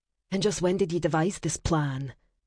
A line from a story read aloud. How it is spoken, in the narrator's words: asked calmly, even though her pulse quickened with hope